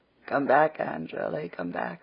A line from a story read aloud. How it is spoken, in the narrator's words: laughed Philippa